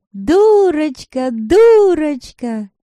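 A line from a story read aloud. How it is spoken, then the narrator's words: Shouting. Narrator (Russian): кричали они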